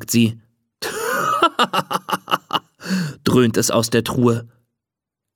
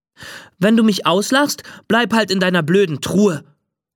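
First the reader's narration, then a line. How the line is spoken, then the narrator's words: Called out. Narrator (German): ruft sie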